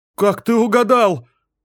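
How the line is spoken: Exclamation. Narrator (Russian): воскликнула она

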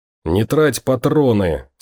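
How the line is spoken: Growled through teeth, breathless. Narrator (Russian): сквозь зубы прорычал Том, который всеми силами старался не сбить дыхание

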